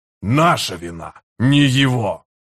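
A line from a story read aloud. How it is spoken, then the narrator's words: Growl. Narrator (Russian): прорычал Харан-Аль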